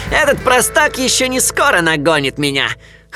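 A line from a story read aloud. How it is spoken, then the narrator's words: Chuckling. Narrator (Russian): хохотнул он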